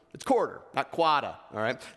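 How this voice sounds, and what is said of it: Put-on East Coast accent. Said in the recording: “That's my Eastern accent for you guys.”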